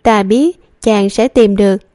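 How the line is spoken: Smiling. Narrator (Vietnamese): Nàng mỉm cười, nói

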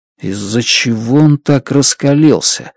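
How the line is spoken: Mutter. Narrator (Russian): бормочу я

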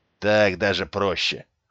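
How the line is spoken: Smirking snort. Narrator (Russian): хмыкнул Алекс

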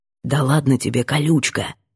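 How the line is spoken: Quiet, into the ear. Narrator (Russian): Тихо на ухо

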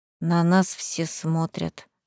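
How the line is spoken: Embarrassed mumble. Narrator (Russian): смущенно пробормотала Марсела

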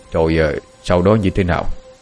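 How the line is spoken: Sighing question. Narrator (Vietnamese): Viên Quang thở dài rồi hỏi

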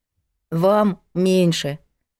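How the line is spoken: Gloomy reassurance. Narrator (Russian): мрачно успокоила остальных Надка

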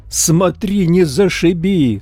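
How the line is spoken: Sharp cry. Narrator (Russian): вскрикнул я

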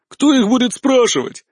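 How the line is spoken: Belligerent exclamation. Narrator (Russian): воинственно воскликнула Варра

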